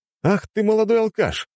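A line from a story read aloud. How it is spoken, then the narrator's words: Exclamation. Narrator (Russian): воскликнул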